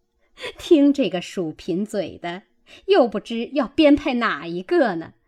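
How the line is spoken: Laughing group. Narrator (Chinese): 众人已经笑了，都说

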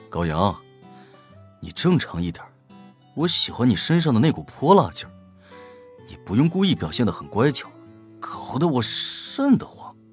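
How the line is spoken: Sighing. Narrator (Chinese): 胡展娇叹口气道

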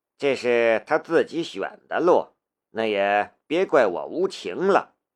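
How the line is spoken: Low voice. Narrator (Chinese): 申屠义低声说道

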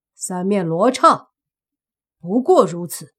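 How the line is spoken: Cold scornful snort. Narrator (Chinese): 那身影……冷冷地哼了一声，说道

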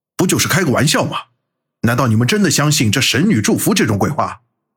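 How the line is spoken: Furious roar. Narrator (Chinese): 端木林被众人挤兑的脸色铁青，朝着众人吼道

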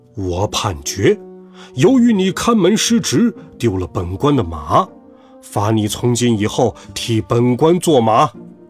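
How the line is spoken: Stern, harsh. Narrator (Chinese): 关老爷厉声说

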